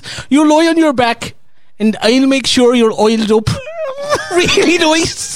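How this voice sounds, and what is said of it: Bad put-on Irish accent. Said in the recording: “I'm just trying to do an Irish accent. ... That might be the worst attempt at an accent I've ever heard. ... you went Bengali in the middle of that.”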